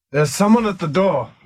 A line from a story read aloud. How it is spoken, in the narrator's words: he said loudly